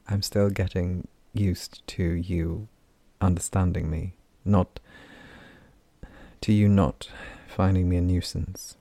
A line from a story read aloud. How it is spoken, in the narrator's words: he said very softly